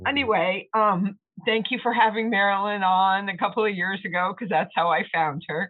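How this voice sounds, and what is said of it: Tearful, emotional voice. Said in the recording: “Sorry about my voice ... She's getting tearful.”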